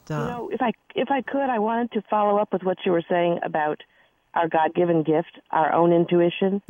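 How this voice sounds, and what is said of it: Hoarse, strained voice. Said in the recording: “I have to apologize about my voice. I've lost my voice this week”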